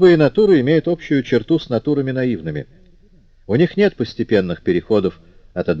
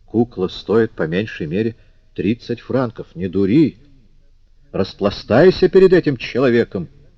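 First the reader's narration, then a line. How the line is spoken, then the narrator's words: Whisper. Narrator (Russian): он шепнул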